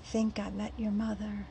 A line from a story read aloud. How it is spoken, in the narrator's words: he whispered